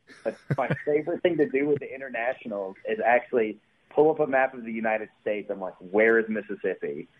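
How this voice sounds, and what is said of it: Southern Mississippi drawl. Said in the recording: “how heavy or light your drawl is ... your accent's coming out ... you sound different than the rest of them”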